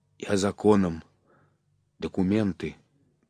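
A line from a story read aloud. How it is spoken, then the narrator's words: Hoarse wheeze through smashed lips. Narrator (Russian): Егор, страшный, окровавленный, и, шлепая разбитыми губами, прохрипел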